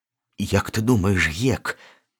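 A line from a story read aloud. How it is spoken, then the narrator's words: Whisper. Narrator (Belarusian): пачаў ён шэптам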